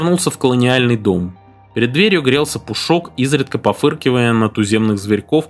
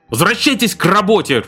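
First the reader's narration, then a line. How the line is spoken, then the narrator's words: Trembling angry bark. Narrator (Russian): рявкнул Эвик, дрожа от злости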